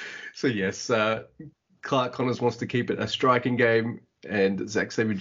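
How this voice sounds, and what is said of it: Usual voice. Nothing is said of it.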